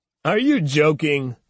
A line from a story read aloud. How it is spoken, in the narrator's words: said another, laughing